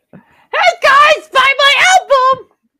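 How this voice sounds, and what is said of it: Toad from Super Mario voice. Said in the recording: “that's a toad from Super Mario Brothers ... every time I do that voice”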